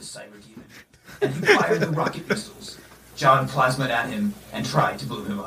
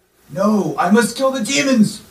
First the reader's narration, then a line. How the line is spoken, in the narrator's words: he shouted